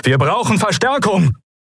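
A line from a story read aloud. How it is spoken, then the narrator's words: Calling out. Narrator (German): rief Telios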